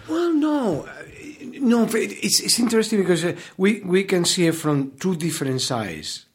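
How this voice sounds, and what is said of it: Noticeable non-American accent. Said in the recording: “the Americans are so enamored of your accent ... They're amorous of your accent”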